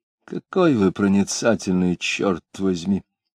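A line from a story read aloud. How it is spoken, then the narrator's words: Quiet grumble. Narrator (Russian): тихонько проворчал Иноков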